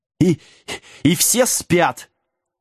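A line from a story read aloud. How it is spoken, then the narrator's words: Indignant breathless yell. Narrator (Russian): возмущенно завопил Вилкинс, едва отдышавшись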